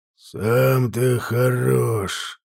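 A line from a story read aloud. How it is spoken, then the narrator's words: Growling. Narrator (Russian): прорычал в ответ Инфилиго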